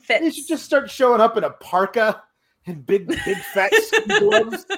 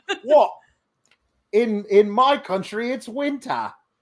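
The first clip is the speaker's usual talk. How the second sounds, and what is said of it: A poorly done put-on accent. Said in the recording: “That's a terrible accent.”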